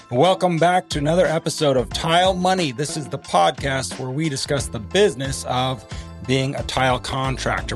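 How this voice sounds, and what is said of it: Rough, worn-out voice. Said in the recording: “as you can hear, my voice is not in the best shape”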